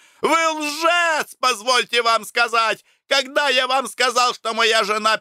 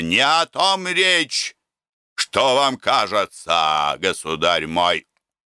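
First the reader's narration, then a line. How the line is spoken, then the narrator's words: Stern interruption. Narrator (Russian): Строго прервал меня лже-презус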